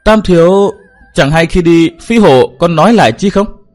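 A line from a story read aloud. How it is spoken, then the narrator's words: Hesitant speech. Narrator (Vietnamese): Cao Tiểu Ngọc lại ngập ngừng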